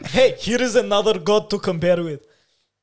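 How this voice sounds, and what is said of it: Put-on mixed Arab Russian accent. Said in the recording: “Why is that my go-to accent recently? ... What was that accent? ... It was like a weird Arab Russian guy.”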